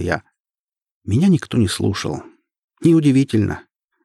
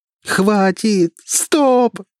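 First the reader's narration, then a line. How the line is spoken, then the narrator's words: Desperate screaming. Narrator (Russian): закричала я, уже не в силах терпеть непрекращающиеся удары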